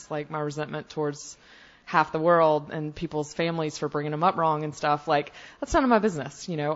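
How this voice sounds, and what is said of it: Southern US accent. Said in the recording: “with a southern accent”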